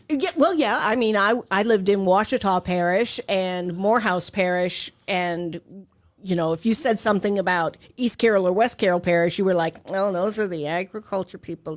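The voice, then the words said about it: Heavy Louisiana Southern accent. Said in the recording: “you still have a very heavy accent. You still love New Orleans. ... It's a heavy accent. ... It's worse when she's down south”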